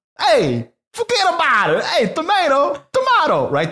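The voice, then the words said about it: Put-on Italian-American accent. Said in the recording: “the accent”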